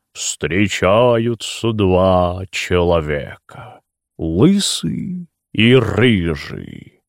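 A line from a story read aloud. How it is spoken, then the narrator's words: Low deep stage drawl. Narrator (Russian): Низким, глубоким, эстрадно-протяжным голосом он начинал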